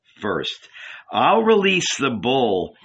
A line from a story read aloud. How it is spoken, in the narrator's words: answered the angel, laughing